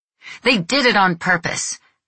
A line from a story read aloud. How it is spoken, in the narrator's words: Reno yelled at Stefano, beside himself